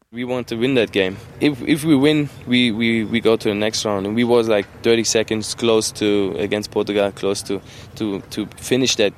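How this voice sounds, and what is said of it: German-accented English. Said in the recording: “the German again, the German accent.”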